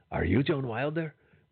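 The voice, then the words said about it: Imitates a movie character's line. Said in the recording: “that wasn't an audio drop. I literally just did that impression.”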